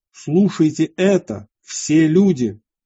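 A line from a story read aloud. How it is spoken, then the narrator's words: Loud public address. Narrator (Russian): святой Михей обратился к народу и громко сказал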